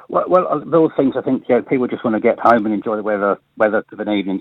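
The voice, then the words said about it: Non-local regional accent. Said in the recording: “You can tell from my accent, I'm not local”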